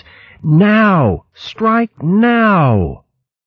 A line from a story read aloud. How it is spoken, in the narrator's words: Luke bellowed aloud to his companions